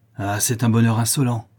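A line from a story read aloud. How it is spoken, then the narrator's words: Furious shout. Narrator (French): s'écria ma belle-mère avec rage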